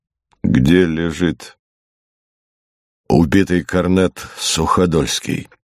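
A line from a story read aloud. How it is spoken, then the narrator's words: Calm, after a pause. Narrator (Russian): После маленькой паузы генерал спокойно спросил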